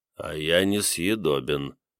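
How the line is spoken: Mumbling. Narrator (Russian): пробормотал

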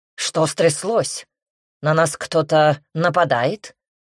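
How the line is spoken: Very rude question. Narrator (Russian): Весьма грубо интересуется лорд Сент-Мор

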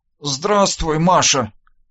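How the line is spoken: Half-choked rasp. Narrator (Russian): полузадушенно прохрипел я

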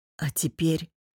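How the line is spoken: Hoarse question. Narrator (Russian): хрипло спросил

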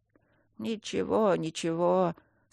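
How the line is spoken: Old man mumbling. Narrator (Russian): снова забормотал старый певец

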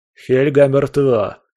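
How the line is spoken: Hoarse voice over communicator. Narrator (Russian): раздался в коммуникаторе хриплый голос Зураб Гани

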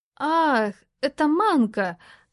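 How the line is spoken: Thoughtful drawl. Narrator (Russian): задумчиво протянула Лара

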